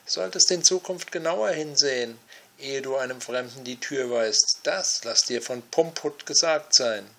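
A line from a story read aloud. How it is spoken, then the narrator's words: Called out. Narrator (German): rief er dem Meister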